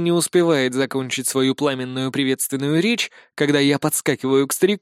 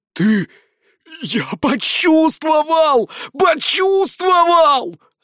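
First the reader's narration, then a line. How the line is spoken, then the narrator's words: Old man yelling joyfully. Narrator (Russian): радостно вопит старик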